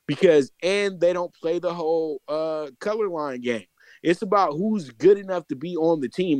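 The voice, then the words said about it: Excited voice. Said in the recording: “I'm excited, Mike. And I guess you can hear it in my voice a little bit.”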